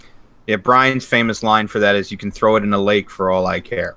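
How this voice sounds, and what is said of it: Usual voice. Nothing is said of it.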